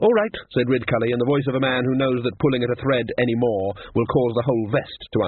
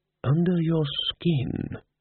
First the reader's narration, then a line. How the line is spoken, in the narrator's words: murmured Ridcully